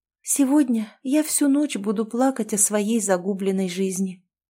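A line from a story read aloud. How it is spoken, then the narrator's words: Quiet reply. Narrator (Russian): тихо ответила она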